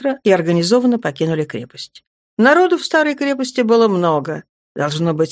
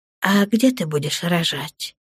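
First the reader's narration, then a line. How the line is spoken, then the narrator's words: Asked quietly. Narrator (Russian): негромко спросила Наташа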